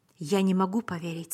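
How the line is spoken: Plain. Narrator (Russian): сказал я

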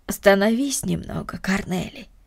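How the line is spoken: Gentle, affectionate. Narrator (Russian): ласково сказала Марта

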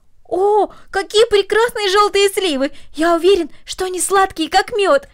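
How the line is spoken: Exclamation. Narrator (Russian): воскликнул Дино

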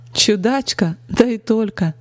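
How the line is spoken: Cheerful laughter. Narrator (Russian): Весело рассмеялась она

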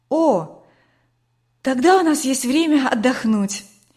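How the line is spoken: Relieved sigh. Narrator (Russian): облегченно вздохнула Катя

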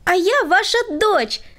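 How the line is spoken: Exclaiming. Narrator (Russian): воскликнула Света

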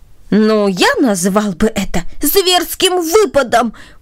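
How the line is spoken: Exclamation. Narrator (Russian): воскликнул другой

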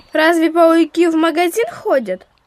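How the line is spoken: Laughing. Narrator (Russian): Егорка рассмеялся

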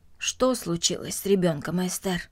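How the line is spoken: Plain. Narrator (Russian): спросил он

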